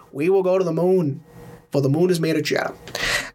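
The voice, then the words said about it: Boston accent, JFK impression. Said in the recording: “I could also do the same example with the Boston accent ... JFK”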